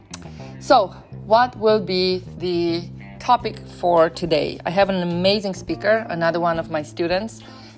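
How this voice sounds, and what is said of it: Noticeable foreign accent. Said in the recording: “You have quite an accent. ... I definitely do.”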